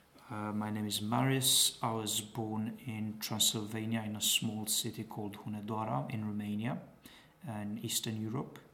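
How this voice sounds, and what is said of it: Romanian speaker, British-American mixed accent. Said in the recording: “I lived for a while in Coventry for about 4 years, which is probably one of the strong influences in my accent. ... studied more of American English rather than British English. And also picked up a lot of Americanisms from movies and TV ... that's where my accent comes from”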